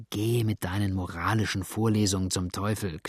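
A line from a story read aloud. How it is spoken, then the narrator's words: Growled. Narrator (German): knurrte Cotton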